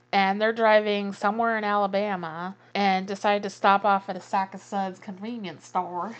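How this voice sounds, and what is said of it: Put-on Southern US accent. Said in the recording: “I don't know why I went with a southern accent there”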